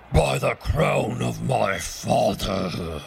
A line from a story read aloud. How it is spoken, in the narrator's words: roared the king